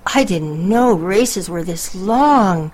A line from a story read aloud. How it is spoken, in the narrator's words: she gasped